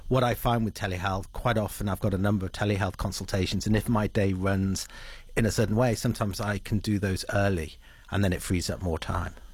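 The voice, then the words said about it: English accent. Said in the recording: “originally from England, I guess, listening to that accent.”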